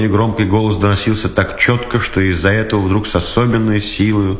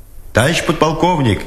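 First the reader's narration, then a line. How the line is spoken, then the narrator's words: Distant shout. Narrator (Russian): издали крикнул Дудкин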